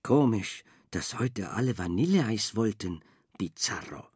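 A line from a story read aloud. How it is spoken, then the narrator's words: Murmuring. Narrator (German): murmelte Frau Angelo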